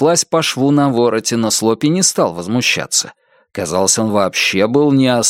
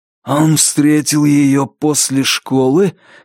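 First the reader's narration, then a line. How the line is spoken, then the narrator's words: Hoarse questioning. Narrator (Russian): хрипло переспросил Лестер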